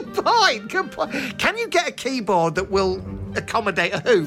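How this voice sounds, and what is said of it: Usual voice. Nothing is said of it.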